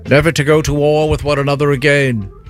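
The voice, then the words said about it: Weak put-on British accent. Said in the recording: “that's kind of a weak British accent out of you”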